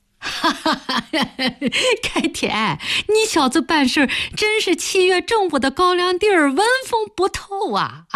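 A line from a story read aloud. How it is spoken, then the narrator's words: Laughing woman. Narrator (Chinese): 詹大同的女人笑着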